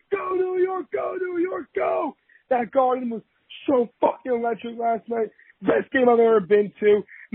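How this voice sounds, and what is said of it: Hoarse, nearly lost voice. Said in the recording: “my voice is gone... My voice is shot... My voice is still gone.”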